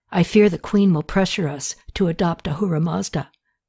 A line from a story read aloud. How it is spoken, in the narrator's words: Mudad said in a low voice